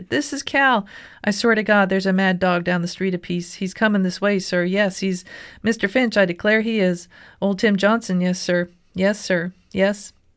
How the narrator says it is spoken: shouted

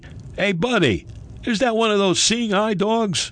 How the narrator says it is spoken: a cab driver yelled out to me

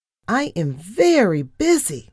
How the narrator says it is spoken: I squeaked

